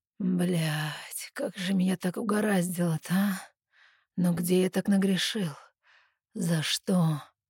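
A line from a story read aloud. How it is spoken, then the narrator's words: Hoarse voice. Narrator (Russian): хриплый голос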